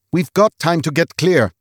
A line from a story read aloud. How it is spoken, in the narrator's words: snapped Olaf